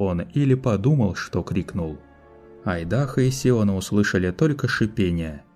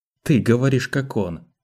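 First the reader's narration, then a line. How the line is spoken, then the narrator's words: Accusing tone. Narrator (Russian): обвиняющим тоном произнёс Айдаха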